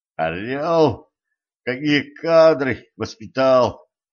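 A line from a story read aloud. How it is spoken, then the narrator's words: Groaning. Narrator (Russian): простонал стажер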